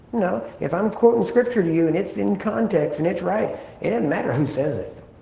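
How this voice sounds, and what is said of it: Regional accent with a twang. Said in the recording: “my accent or the twang in my voice”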